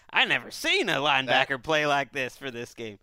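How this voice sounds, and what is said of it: Imitates another person's voice. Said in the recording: “Is that how Wes talks? ... my impression of Damashek's impression ... reduced to like some sort of mindless person with literally no education ... chewing on grass”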